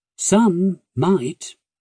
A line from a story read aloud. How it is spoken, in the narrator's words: he replied, his tone leaving no doubt that he was not one of the aforementioned some